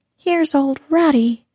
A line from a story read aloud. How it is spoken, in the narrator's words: cried